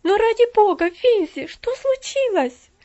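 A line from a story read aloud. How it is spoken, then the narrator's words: Alarmed worried cry. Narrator (Russian): вскрикнула с еще большим беспокойством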